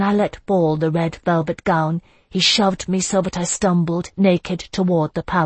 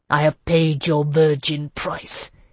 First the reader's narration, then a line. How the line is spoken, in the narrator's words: Desarm said menacingly